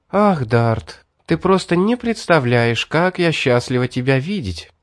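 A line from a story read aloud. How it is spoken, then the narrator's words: Joyful, girl. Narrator (Russian): радостно сказала девушка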